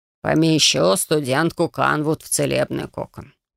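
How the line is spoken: Reluctant mutter. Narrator (Russian): пробормотал Цуи, не желая ввязываться во все это

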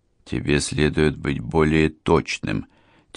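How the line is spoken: Quiet addition, Milanese man. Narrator (Russian): тихонько добавил миланец

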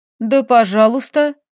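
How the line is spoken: Snorting. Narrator (Russian): фыркнула я и хмыкнула

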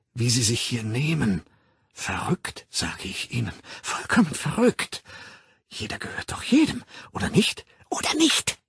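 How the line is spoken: Hissing. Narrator (German): zischte sie

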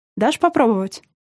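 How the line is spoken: Short laugh. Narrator (Russian): Жека хохотнул

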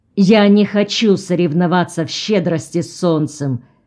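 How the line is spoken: Angry declaration. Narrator (Russian): сердито заявил Джон

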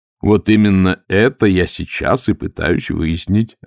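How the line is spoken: Plain. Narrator (Russian): ответил Маркоу

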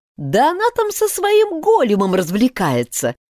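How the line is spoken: Giggling. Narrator (Russian): хихикнула Лира

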